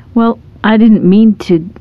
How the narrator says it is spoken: the man stammered

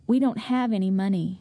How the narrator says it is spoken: sadly told

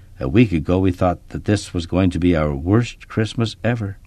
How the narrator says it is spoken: Kip said quietly

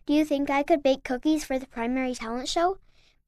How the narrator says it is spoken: asked, almost in a whisper

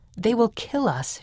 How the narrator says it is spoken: she said

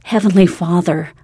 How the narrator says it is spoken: pleaded aloud

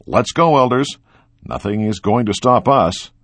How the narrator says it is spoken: the zone leader shouted

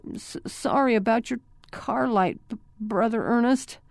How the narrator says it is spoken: Clint stammered

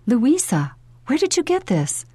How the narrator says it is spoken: She gasped

